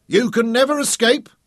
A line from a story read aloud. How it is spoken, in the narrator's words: he shouted across the gap between the two craft